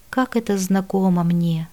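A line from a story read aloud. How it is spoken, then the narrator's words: Sighing, doubtful. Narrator (Russian): Вздохнул он ... произнес, будто в сомнениях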